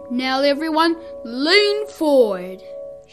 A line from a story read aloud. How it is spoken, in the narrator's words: shouted Dad